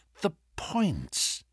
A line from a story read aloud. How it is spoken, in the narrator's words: he muttered